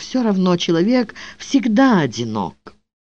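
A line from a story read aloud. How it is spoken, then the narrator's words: Whispered. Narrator (Russian): та, которая шептала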